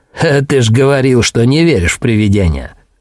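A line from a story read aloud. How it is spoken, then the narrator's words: Snorting. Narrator (Russian): фыркнул Билл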